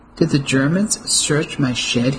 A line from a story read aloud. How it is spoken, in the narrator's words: he asked